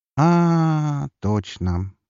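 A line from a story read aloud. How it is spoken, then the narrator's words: Drawling, lips pursed. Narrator (Russian): поджав губки, протянула она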